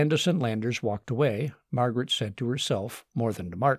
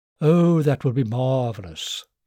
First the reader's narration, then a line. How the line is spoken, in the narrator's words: Candace purred